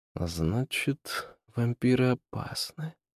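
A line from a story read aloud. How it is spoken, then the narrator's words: Under his breath. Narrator (Russian): сказал он вполголоса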